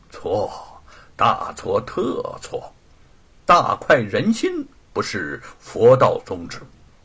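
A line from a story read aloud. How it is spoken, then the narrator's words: Serious, stern. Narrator (Chinese): 老道士笑容收敛，神情严肃地说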